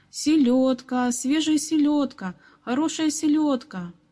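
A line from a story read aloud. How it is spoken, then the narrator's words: Ringing street cry. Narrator (Russian): крича звонким голосом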